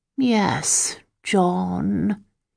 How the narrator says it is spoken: he was saying in his drawling, self-congratulating voice

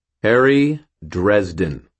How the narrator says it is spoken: I said in a clear tone

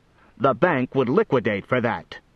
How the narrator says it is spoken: snapped Voraz

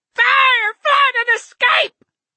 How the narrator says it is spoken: the other screamed

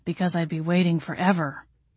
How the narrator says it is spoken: he muttered

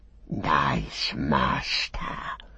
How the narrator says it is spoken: he whispered

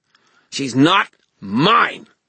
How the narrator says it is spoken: Meryl snarled

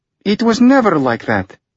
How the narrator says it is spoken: Anya snapped

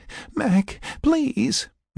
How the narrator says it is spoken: Sarah pleaded

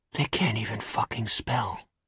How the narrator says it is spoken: Finn whispered

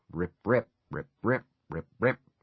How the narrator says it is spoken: Under his breath, he was muttering

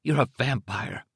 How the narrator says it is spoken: said hoarsely

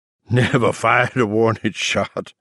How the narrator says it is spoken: Weems cackled breathlessly

